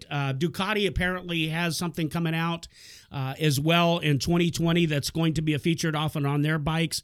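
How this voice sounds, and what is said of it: Strained, worn-out voice. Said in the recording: “My voice is about giving up”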